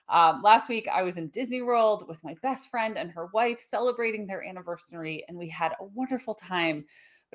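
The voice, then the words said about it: Froggy, hoarse voice. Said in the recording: “I've got a little frog in my throat ... I sound a lot worse than I actually am ... the froggy throat”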